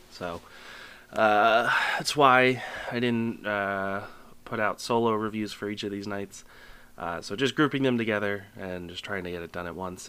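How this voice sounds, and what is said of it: Sick-sounding voice. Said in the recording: “As you might be able to tell from my voice, or you might not, I don't know. But I can hear it still. I am currently under the weather. I've been sick since Friday.”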